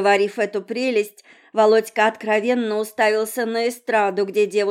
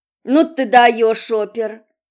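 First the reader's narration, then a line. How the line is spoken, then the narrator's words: Grumbling. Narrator (Russian): проворчала я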